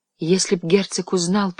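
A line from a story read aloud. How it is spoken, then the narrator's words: Whisper. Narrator (Russian): прошептала она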